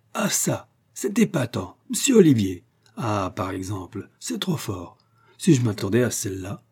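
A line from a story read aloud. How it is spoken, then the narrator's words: Exclaimed. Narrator (French): s'écria le Belvillois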